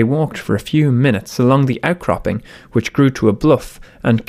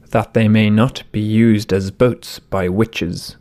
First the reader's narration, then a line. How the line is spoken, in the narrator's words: the man said gravely